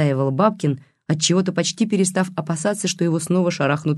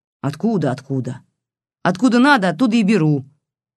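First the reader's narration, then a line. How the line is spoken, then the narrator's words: Snapped. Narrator (Russian): огрызнулась та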